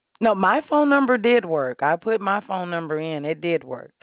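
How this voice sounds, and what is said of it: American accent. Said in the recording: “You're in the States. I can tell by your accent.”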